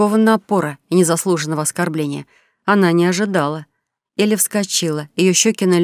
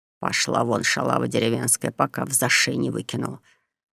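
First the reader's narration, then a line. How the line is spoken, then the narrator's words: Hissed nastily. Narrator (Russian): прошипел противный официант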